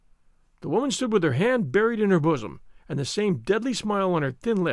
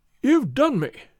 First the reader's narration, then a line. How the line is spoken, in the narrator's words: he cried